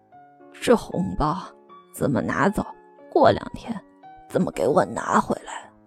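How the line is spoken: Quiet mumbling. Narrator (Chinese): 小鹿小声嘟囔

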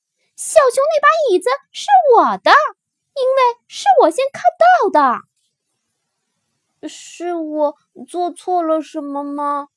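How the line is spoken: Timid question. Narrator (Chinese): 小熊怯怯地问

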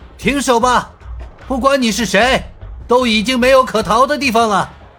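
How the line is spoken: Shouting loudly. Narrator (Chinese): 反而大声喊道

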